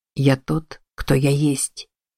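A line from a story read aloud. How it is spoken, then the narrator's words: Quiet. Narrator (Russian): тихо произнес Кицуны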